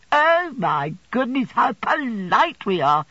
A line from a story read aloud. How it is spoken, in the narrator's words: exclaimed Miss Mocha